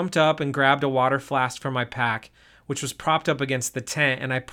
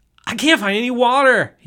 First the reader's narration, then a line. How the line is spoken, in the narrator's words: he yelled back